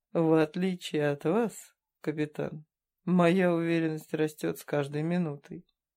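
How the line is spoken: Grim smirk. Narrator (Russian): мрачно усмехнулся Морин

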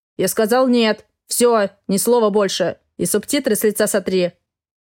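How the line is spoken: Snorting remark. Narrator (Russian): хмыкнул Гордей

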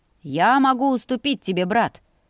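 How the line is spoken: Pleased laughter. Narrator (Russian): довольно рассмеялся Ульви

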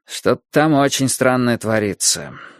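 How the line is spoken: Gloomy. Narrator (Russian): мрачно сказал Борис

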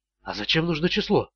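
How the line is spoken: Whispered. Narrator (Russian): прошептала она

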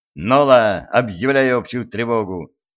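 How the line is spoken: Barked. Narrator (Russian): рявкнул Джим

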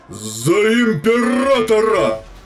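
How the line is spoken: Warlord's roar. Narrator (Russian): взревел примарх

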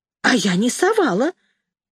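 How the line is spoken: Hurried speech. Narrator (Russian): заговорила торопливо Люда

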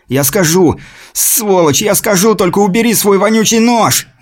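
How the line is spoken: Bound man shouting. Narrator (Russian): Закричал связанный человек

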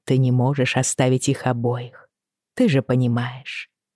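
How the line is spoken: Soft. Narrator (Russian): мягко сказала я

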